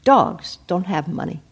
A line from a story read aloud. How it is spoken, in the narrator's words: the big American soldier calmly said in perfect accented Thai